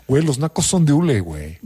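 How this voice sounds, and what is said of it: Put-on posh Mexican fresa accent. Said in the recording (Spanish): “El acento fresco.”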